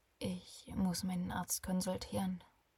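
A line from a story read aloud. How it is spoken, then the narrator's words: Quiet, puzzled, to himself. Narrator (German): sprach er leise zu sich selbst und war verwundert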